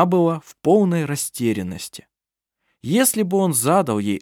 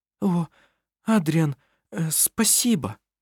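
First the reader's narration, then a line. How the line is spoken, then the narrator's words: Stammering. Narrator (Russian): Заикаясь, проговорила она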